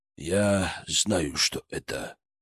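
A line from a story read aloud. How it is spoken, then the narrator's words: Quietly. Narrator (Russian): тихо сказал он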